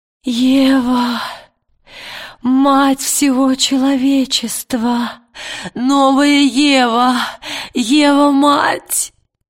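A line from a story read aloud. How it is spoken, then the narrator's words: Sobbing blurt. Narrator (Russian): Рыдая, выпалила Лина Фельд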